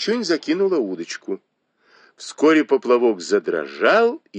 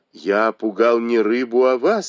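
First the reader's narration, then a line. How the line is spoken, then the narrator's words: Plain. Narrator (Russian): ответил Бао Юй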